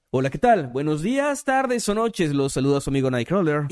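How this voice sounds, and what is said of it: Narrator-style announcer voice. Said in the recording (Spanish): “voz de narrador”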